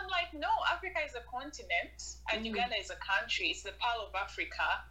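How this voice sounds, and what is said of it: Ugandan accent. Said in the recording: “my accent ... Your accent is different. I'm like, I'm proudly Ugandan.”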